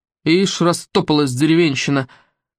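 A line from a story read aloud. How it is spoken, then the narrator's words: Angry snapping. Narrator (Russian): сердито огрызнулся на нее садовник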